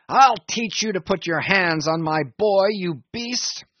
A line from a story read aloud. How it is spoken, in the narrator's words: roared the saloon-keeper